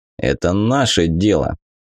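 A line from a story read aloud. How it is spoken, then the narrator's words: Woman's amused snort. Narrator (Russian): мамка хмыкнула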